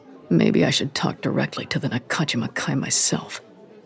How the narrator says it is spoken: Kensuke muttered

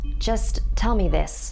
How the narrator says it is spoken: Daniel asked

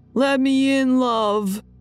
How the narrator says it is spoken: yelling

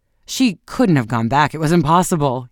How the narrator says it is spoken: he exclaimed

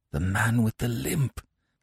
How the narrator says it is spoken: I said hoarsely

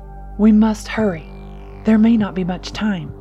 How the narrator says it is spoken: he urged, his voice edged with urgency

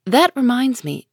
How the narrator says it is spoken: said Meg

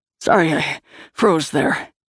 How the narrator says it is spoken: panted Liam

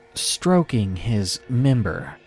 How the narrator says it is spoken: he said slowly

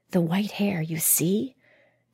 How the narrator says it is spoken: Ilka whispered to Matsui

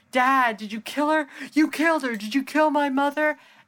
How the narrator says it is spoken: he starts screaming

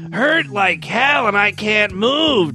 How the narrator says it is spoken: Jonas barked

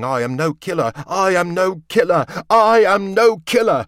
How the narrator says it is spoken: over and over he yelled, his eyes getting darker and darker with madness

